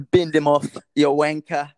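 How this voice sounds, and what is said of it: Bad put-on British accent. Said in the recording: “that's a bad, bad British accent”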